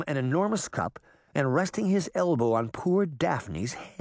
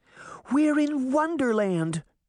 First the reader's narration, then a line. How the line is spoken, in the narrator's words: Daphne squealed